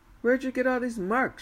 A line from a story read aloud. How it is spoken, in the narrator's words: she asked